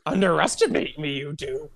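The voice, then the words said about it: Yoda-style croaky character voice. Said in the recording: “doing a Yoda impression ... my voice became like a frog juggling marbles in my mouth”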